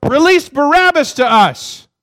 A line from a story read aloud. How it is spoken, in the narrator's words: the Pharisees, the Sadducees, the scribes, they all shout